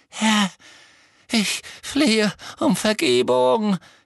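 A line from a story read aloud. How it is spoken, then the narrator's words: Croaking plea. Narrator (German): krächzte der Mann am Boden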